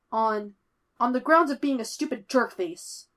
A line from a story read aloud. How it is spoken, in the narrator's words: Foggy splutters